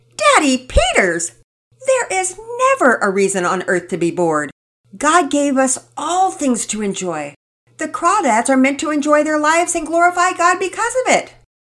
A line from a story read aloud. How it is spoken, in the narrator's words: Penelope loudly exclaimed